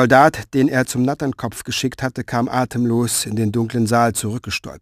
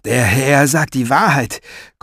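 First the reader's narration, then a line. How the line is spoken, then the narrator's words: Gasping. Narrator (German): keuchte er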